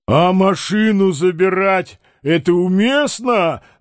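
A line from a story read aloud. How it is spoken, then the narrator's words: Tactless shout. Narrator (Russian): закричал нетактичный Балаганов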